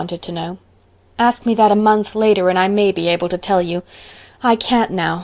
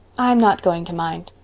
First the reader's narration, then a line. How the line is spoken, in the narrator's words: said Anne quietly